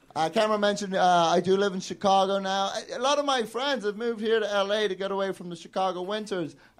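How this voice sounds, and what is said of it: Indistinct mixed British-American accent. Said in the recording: “I have a fucking accent ... I grew up in various parts of the UK, and I've lived here in the States for 10 years ... I have like an awful middle-of-the-road... ... this weird, indistinct accent”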